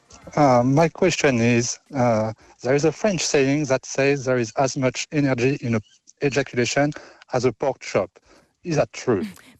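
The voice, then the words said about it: French accent. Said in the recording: “It's so good when you say it as well in that French accent.”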